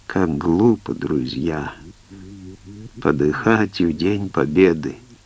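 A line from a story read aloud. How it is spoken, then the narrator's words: Labored dying whisper. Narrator (Russian): с трудом дыша, шепнул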